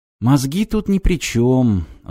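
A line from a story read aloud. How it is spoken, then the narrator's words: Sighing animal. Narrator (Russian): вздохнула рысь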